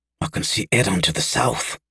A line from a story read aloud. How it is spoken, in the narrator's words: hissed Kales